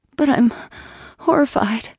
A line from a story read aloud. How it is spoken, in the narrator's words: said a little weakly